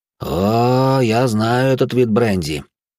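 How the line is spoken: Pleased voice. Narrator (Russian): довольным голосом произнес лекарь

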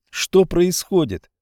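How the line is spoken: Boy shouting. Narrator (Russian): закричал мальчик

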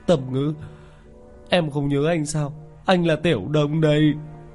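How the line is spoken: Tearful sobbing. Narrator (Vietnamese): Hắn khuôn mặt béo phì đầy nước mắt, thút thít

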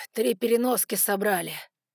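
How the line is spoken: Exhaled. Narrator (Russian): выдохнул Саймон

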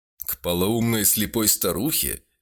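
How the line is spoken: Chuckling. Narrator (Russian): Венцель Марцел тоже хохотнул

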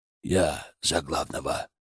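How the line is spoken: Quiet hoarse rasp. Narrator (Russian): прохрипел он тихо

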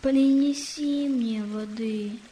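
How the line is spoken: Sad boy's request. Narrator (Russian): Мальчик печально попросил

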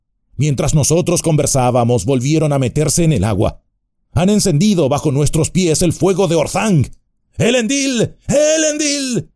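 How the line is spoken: Shouted. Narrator (Spanish): gritó

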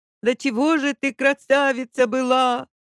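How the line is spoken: Woman shouting out. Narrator (Russian): выкрикнула тетка

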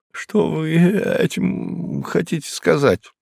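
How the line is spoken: Muttering. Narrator (Russian): пробормотал он

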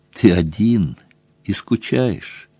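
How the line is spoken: Gentle question. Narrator (Russian): ласково спросила Тесса

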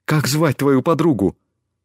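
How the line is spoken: Excited question. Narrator (Russian): Взволнованно спросил он

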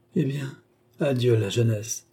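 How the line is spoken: Deep sigh, tearful man. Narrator (French): Et il poussa un profond soupir, accompagné de deux larmes

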